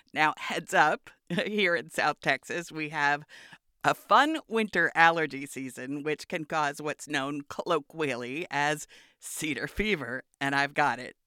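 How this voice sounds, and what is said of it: Hoarse, croaky, congested voice. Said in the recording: “You can hear it in my voice ... I may sound like a frog”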